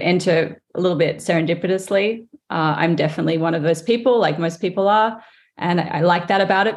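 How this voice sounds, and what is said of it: Australian-English accent. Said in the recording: “you can hear my accent. ... I grew up in Australia, but my mother is English”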